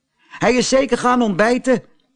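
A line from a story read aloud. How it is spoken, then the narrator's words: Boy calling out. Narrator (Dutch): riep een van de jongens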